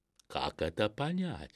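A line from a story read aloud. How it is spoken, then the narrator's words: Plain. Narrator (Russian): спросил Педро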